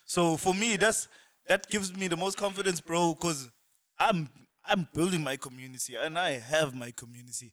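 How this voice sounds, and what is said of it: Cape Coloured accent. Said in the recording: “The colored accent doesn't want to go.”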